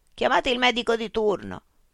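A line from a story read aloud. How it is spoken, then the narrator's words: Shouting in distress. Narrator (Italian): gli venne un infarto, urlò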